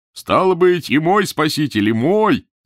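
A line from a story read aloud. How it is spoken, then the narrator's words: Shouted. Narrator (Russian): кричал Долгорукой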